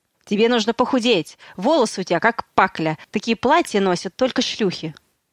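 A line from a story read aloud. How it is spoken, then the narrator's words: Bark. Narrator (Russian): рявкнуть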